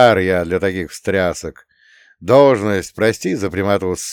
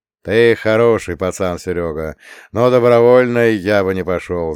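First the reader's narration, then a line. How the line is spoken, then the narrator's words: Sighing. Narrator (Russian): вздохнул он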